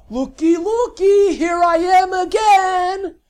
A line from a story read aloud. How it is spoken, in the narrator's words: Lavinia yelled